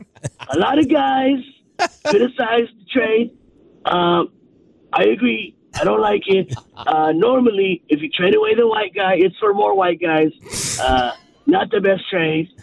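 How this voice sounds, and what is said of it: Donald Trump impression. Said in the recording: “he's got a good impression. ... More trade policy from Trump.”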